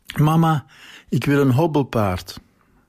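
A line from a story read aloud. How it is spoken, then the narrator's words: Breathless shout. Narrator (Dutch): riep buiten adem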